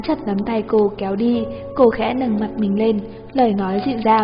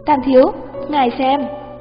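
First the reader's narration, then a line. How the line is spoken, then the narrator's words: Involuntary exclamation. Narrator (Vietnamese): Nhân viên phục vụ không nhịn được kêu lên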